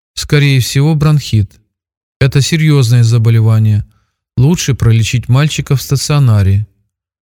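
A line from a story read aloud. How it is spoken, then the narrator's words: Routine matter-of-fact voice. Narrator (Russian): дежурным голосом вынесла врач свой вердикт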